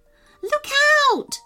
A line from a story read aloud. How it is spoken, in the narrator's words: squealed Madison